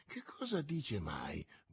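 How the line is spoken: Muttered. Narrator (Italian): borbottò Porthos

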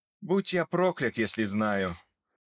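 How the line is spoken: Sighing. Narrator (Russian): вздохнул Томас

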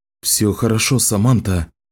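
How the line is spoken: Quiet, soothing. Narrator (Russian): тихо сказал Ричард

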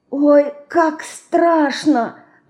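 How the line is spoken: Whisper. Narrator (Russian): прошептала Динка

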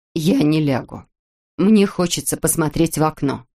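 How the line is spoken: Firm voice. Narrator (Russian): Нина твердым голосом сказала

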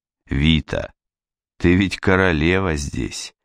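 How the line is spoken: Soft. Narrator (Russian): сказал он мягко

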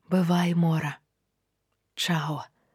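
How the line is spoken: Quiet, secretive. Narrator (Belarusian): сказала я ціха, каб Санька не пачула

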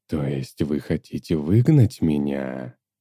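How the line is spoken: Grave, sepulchral question. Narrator (Russian): могильным голосом спросил он

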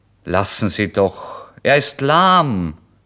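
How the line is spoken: Innkeeper calling out. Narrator (German): rief der Wirt

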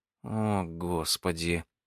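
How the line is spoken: Moaning. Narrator (Russian): простонала Джекки

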